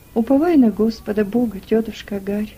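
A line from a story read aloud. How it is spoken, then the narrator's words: Sad, old man. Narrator (Russian): грустно сказал ей старик-негр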